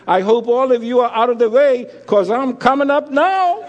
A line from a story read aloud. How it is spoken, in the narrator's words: a voice was heard under the church shouting